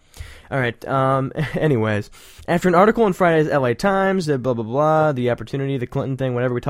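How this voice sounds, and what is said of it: Usual voice. Nothing is said of it.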